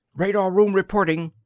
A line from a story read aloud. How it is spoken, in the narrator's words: he said urgently